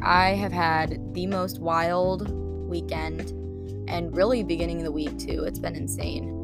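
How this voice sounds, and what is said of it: Raspy, strained voice. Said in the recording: “my voice is kind of gone today, so I'm sorry if it sounds a little raspy”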